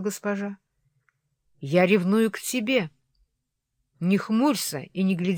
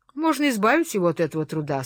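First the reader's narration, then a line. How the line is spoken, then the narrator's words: Plain. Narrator (Russian): сказал Хитклифф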